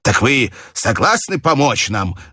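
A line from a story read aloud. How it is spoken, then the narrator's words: Exclamation. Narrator (Russian): воскликнул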